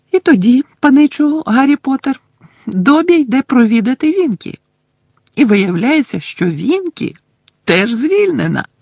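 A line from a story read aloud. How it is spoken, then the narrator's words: Joyful conclusion. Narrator (Ukrainian): радісно закінчив Добі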